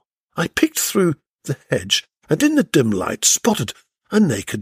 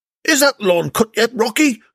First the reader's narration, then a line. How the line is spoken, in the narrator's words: shouted Wilma from the study